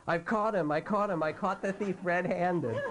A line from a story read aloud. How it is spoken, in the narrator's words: yelling